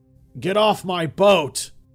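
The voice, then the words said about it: Hoarse growling old man's voice. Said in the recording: “A hoarse voice growled through the shadows.”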